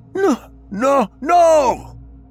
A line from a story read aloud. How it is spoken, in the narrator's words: screams in both defiance and terror